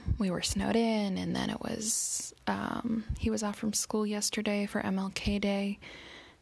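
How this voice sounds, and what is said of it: Sick, weird-sounding voice. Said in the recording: “my voice might sound a little weird because I'm sick”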